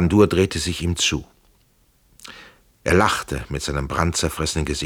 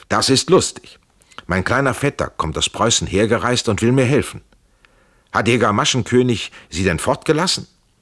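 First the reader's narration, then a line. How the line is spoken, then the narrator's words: Calling out. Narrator (German): Er rief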